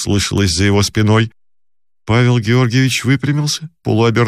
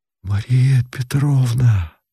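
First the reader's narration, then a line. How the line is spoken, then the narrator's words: Quiet, calling. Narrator (Russian): тихо и зовуще сказал Павел Георгиевич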